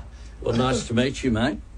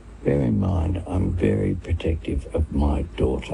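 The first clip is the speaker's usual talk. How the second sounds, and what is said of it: Whispering. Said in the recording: “he's whispering ... in his ear. ... Whispering into the ... boyfriend's ear.”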